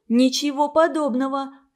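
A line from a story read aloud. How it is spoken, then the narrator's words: Shout. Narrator (Russian): крикнула Клара Холопова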